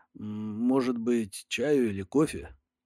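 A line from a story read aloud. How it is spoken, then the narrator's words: Uncertain mumble. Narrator (Russian): промямлил неуверенно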